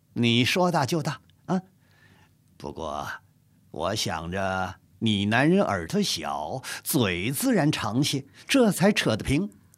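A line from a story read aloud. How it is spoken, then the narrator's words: Giggling. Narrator (Chinese): 海兰叉嘻的一笑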